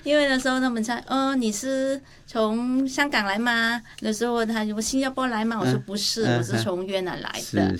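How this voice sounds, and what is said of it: Mandarin with a slightly different accent. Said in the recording (Chinese): “很多人就觉得我的口音有点不一样”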